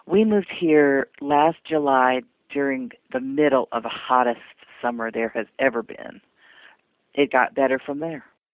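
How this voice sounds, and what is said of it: Carolinas Southern US accent. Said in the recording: “Your accent doesn't seem to be a Texan accent ... my accent is more Carolinas than anything else.”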